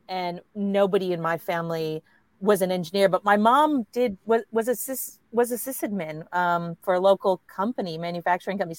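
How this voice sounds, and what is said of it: American accent. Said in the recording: “I grew up in the US, obviously, you can tell from the accent”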